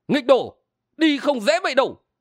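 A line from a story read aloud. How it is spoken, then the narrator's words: Barking shout. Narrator (Vietnamese): Lữ Trường Lâm quát lên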